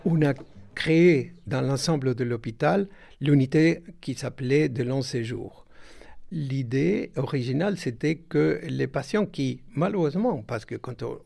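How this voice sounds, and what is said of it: Sing-song Argentine accent. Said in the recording (French): “accent chantant. Il est argentin.”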